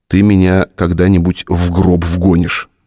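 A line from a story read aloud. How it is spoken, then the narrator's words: Gloomy statement. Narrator (Russian): мрачно сообщил он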